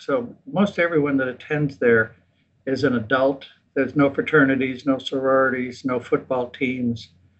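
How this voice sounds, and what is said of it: American English accent. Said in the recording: “listening to your accent in English, you sound completely American”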